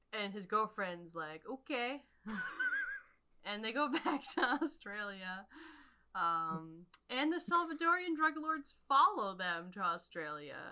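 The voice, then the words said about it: Put-on Australian accent. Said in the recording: “Please do the rest of this in Australian accent. It's so good.”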